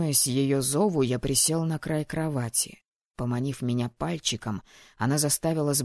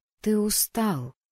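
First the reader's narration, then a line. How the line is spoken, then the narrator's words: Soft. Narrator (Russian): мягко сказала она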